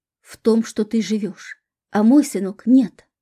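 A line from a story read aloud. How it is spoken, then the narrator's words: Bitter exclamation, woman. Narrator (Russian): воскликнула озлобленная на весь мир женщина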